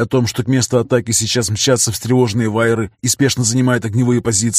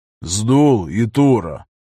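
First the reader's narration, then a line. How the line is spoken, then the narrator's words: Deliberately calm call. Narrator (Russian): Нарочито спокойным голосом позвал он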